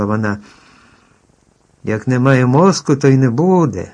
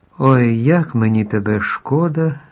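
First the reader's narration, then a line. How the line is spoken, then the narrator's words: Sighing girl. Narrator (Ukrainian): зітхнула дівчинка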